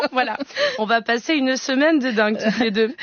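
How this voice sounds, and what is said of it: Shaky put-on Marseille accent. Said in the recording (French): “j'essaie de vous imiter, Eva ... Avec l'accent de Marseille ... des accents bancals”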